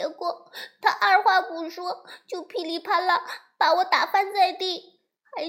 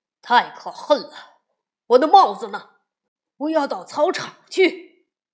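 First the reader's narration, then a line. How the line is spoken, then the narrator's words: Roaring. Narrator (Chinese): 熊爸爸咆哮起来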